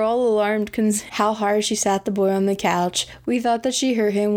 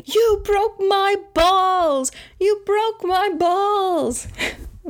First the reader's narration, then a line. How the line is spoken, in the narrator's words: the little boy started screaming